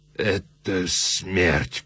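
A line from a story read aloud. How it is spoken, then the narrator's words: Moaned. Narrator (Russian): простонал Муро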